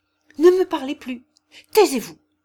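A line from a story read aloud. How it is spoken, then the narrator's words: Enraged exclamation. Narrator (French): s'écria-t-il avec une sorte de rage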